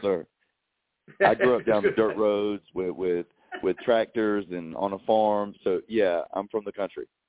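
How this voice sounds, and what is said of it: Southern Eastern North Carolina accent. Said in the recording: “I'm hearing a little Southern accent ... I have a very distinctive Eastern North Carolina accent”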